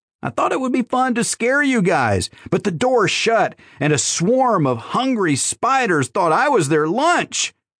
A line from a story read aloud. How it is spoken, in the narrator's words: wailed Candy Bar